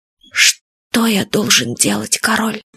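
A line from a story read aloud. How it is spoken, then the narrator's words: Quiet, softened question. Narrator (Russian): что-то сдвинулось у него в душе, и Сет Фадейк тихо спросил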